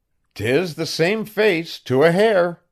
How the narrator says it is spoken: cried one man for joy

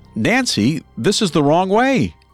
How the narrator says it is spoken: Strange, worried about what might happen next, yelled out

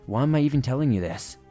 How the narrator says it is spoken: I said, sighing

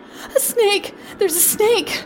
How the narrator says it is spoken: I cried

